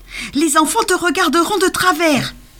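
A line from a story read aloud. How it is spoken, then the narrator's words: Insolent young Santa shouting. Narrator (French): cria un jeune Père Noël insolent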